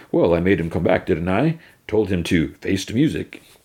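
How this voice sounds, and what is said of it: Put-on English accent. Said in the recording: “talking English accent.”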